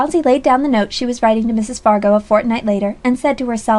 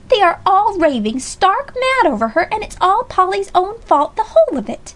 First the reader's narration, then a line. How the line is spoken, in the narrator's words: Alexia exclaimed at last